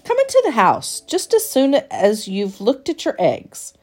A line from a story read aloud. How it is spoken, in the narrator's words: he ordered sharply